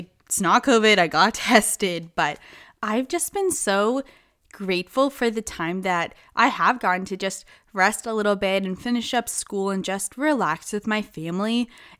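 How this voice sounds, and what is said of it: Slightly gravelly, off-sounding voice. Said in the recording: “my voice sounds a little bit off, I'm recovering from a cold, so I kind of have that gross, like gravelly bit going on there a little bit”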